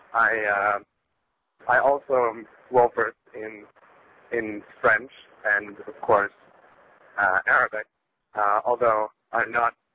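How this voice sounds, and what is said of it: American accent. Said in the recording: “you sound like you've got an American accent”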